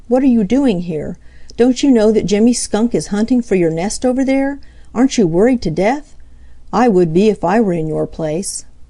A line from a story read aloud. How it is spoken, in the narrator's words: cried Peter